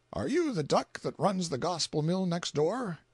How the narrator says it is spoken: choked, and even shed tears, but with an effort he mastered his voice, and said in lugubrious tones

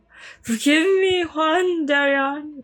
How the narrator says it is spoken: felt he had been abandoned by God, and cried with all his soul

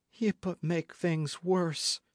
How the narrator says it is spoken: said Joanna sadly

